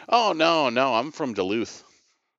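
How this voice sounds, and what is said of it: Put-on Duluth accent. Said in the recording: “Can you tell by my accent? ... you pick up an accent. ... my Duluth accent”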